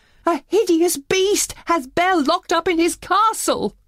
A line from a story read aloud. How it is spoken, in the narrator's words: Maurice cried